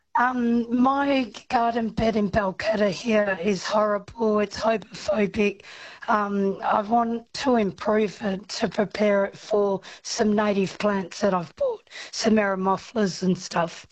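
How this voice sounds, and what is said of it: Hoarse, croaky voice. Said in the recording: “I've got laryngitis.”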